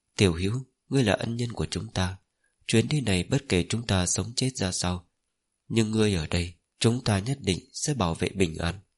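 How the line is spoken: Gentle. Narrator (Vietnamese): Giọng của y nhẹ nhàng

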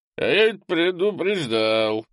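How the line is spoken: Tipsy tone. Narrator (Russian): хмельным тоном сказал Олесм

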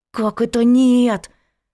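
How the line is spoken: Hissing. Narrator (Russian): зашипела Надка

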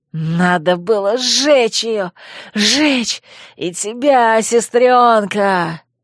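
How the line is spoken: Snarling growl. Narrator (Russian): зарычал, оскалившись

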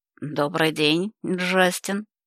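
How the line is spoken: Husky female voice. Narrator (Russian): хрипловатого женского голоса

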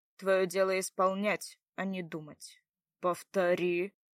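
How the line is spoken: Rough, commanding male voice. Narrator (Russian): как-то грубо и властно заявил один из мужчин

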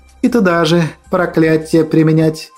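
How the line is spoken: Sorrowful sigh. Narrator (Russian): Она горестно вздохнула

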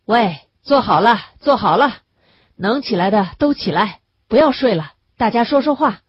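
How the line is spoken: Loud call. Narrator (Chinese): 他就大声的招呼

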